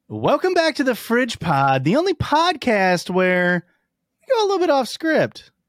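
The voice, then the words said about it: Imitates a YouTuber's voice, halfway decent. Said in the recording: “I think I do have a halfway decent MatPat ... I think it's halfway there. I've done it better ... I would call it like 60.”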